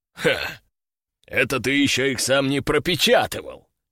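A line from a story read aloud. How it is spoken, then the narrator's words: Chuckling general. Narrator (Russian): хохотнул генерал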